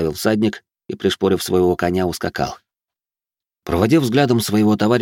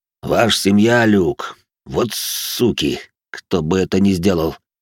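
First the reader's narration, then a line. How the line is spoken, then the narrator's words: Deep bass, big man. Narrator (Russian): пробасил здоровяк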